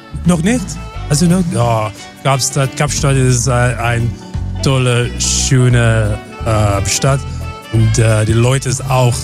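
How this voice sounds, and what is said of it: Slight foreign accent in German. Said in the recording (German): “Der hat so einen leichten Dialekt.”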